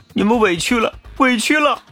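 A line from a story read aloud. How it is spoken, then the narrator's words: Tearful quiet murmuring. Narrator (Chinese): 赵荣宇哭着 嘴里默默念着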